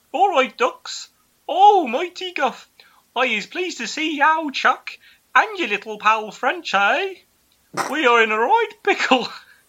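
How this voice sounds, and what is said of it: Thick put-on Brummie accent. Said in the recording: “He is a heavy-set man with a thick Brummie accent.”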